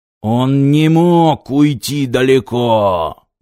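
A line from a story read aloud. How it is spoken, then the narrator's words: Roaring. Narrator (Russian): взревел Пилорама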